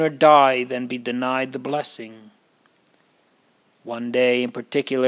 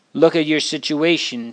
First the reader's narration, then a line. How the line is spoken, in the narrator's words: says he